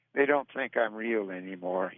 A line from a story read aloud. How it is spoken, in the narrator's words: he said sadly